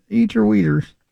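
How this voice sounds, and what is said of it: Muffled John Wayne impression, southern accent. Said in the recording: “It sounds like you're eating pizza in a tree fort. ... with a southern accent. ... I don't do a John Wayne.”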